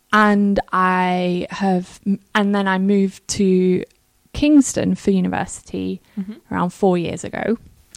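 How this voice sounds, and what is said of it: Northern English accent. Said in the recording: “I am from up north. ... You can tell from my accent.”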